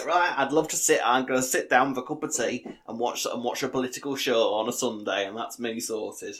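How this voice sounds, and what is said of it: Put-on northern English accent. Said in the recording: “Ashley from Coronation Street? ... that's the accent I associate with watching political shows. Northern.”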